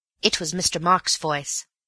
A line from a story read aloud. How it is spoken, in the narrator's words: said Elsie firmly